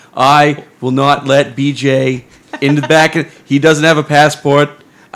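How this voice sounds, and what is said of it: Donald Trump impression. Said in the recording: “I had to do a Trump impression.”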